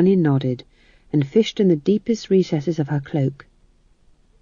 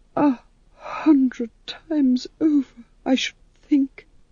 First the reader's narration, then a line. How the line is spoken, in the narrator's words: said Vitola weakly